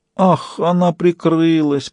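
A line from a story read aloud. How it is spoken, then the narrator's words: Moaning. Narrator (Russian): простонал Фист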